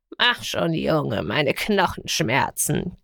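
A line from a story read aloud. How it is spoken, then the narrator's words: Whiny croak. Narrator (German): krächzte Garn quengelig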